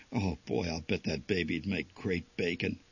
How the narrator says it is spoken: my father finally said in a quiet voice

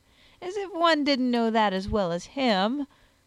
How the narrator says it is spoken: sneered his lordship

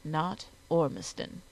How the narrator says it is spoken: he agreed gently

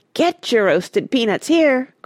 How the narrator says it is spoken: cried

